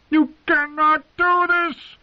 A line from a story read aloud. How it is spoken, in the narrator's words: the prisoner shouted at their retreating backs